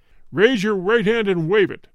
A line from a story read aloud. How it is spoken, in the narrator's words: thundered the sky voice